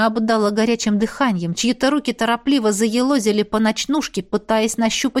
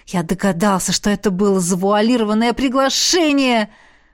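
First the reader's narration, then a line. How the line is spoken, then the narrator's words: Joyful exclamation. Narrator (Russian): Радостно воскликнул Орш в ответ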